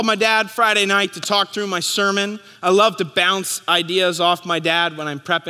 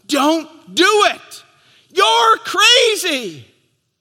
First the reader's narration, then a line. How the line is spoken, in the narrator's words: Paul, like the onlookers at the Niagara River, stand at the banks and yell